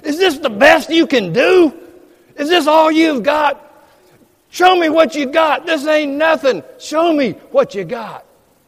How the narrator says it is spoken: shouting

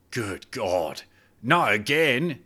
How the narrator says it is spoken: he muttered to himself

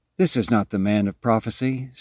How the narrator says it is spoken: sighed Ernest to himself

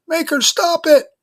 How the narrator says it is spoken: yelled the crying boy

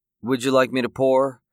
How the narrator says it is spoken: the waitress asked evenly

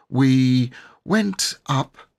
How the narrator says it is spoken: said Robert slowly

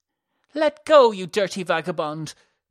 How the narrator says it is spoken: cried Alyssa

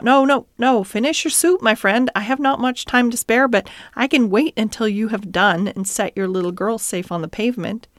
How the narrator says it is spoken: the gentleman, hastening up, cried out

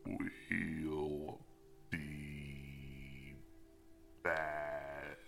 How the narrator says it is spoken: she croaked

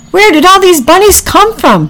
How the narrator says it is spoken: Packy shouted

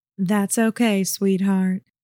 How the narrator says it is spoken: Zena said in a soothing voice

